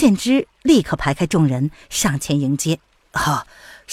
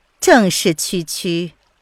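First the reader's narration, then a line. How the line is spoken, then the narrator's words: Smiling, charming. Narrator (Chinese): 谭台嫣然含着笑说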